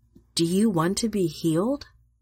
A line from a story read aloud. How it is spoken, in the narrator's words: Tenderly, he asks